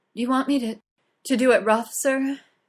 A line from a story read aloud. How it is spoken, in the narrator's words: she pants